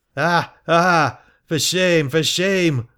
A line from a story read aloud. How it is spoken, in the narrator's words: was shouted